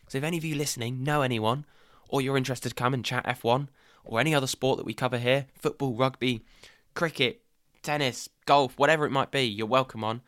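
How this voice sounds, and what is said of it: Whispering. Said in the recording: “Don't know why I'm still whispering.”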